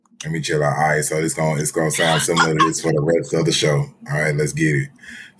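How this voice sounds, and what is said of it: Deep, low relaxed voice. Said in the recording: “y'all keep saying my deep voice ... If I'm relaxed, I just talk lower.”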